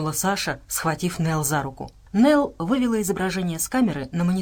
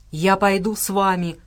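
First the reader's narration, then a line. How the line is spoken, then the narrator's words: Growled. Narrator (Russian): прорычал Джеффри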